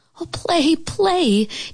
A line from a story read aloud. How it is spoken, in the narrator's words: Geraldine begged